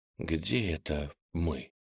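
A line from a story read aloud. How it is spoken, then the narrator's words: Quiet whisper. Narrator (Russian): он тихонько прошептал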